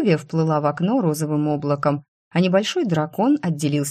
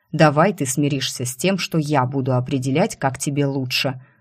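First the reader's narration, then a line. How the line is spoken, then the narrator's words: Growl. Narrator (Russian): рыкнул Вис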